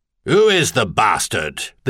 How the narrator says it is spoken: the Duke demanded, and his tone was even harsher than his expression

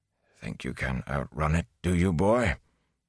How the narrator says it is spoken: He began to mutter to himself

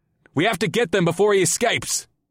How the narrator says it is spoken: I shouted to Amrila

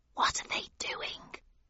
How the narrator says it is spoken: I whispered to the Griffin

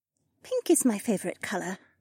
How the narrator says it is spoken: Janel muttered

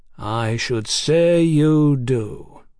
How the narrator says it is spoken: Mick said slowly

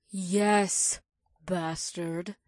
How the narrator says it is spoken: Naomi growled sarcastically

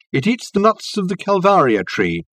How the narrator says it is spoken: called out Reg to Richard

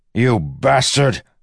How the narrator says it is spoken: Wax shouted toward the box

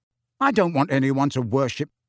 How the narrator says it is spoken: began hotly

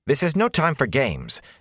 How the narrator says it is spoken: Nynaeve began angrily, but Moraine cut her off

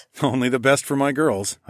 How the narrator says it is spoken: I chuckled

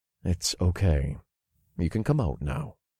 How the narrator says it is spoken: I said softly

